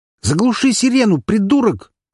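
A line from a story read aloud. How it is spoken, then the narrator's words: Shouting at full strength. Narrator (Russian): крикнул он, что есть силы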